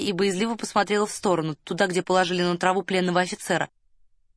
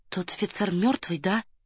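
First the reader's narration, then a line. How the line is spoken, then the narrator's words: Whispered question. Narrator (Russian): шепотом спросила Варя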